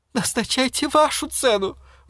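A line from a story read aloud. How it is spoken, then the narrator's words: Pleading. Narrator (Russian): взмолился Пикеринг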